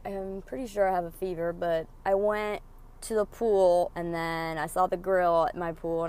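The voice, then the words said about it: Raspy, sick-sounding voice. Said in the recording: “my voice gets raspy or whatever, I'm sick right now”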